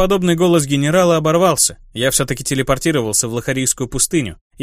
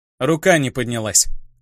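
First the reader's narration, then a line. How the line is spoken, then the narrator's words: Quiet grumble. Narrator (Russian): тихо проворчал я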